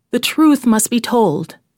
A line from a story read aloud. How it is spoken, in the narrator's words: cried the farmer